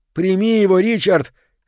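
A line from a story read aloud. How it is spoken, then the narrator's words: Shouting. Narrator (Russian): кричал Кёниг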